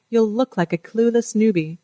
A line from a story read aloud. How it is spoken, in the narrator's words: chuckles